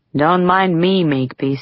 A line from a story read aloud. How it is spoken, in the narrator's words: he said